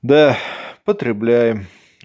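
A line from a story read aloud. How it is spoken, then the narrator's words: Weary reply. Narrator (Russian): устало ответил Колян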